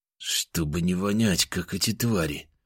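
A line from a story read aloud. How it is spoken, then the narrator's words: Low voice. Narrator (Russian): вполголоса ответил он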